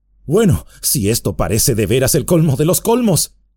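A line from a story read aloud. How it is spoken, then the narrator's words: Exclaimed. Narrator (Spanish): exclamó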